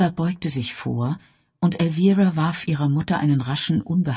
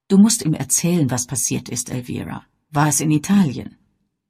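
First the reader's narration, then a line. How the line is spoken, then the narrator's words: Firm voice. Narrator (German): Bess fuhr mit fester Stimme fort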